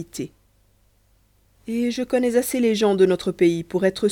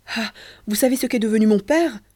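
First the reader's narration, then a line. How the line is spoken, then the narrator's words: Exclaimed. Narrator (French): s'écria-t-il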